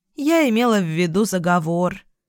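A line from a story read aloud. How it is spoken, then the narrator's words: Sighing. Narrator (Russian): вздохнула Луна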